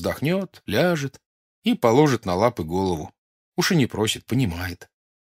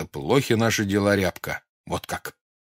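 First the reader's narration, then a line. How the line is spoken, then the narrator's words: Angry. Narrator (Russian): скажешь сердито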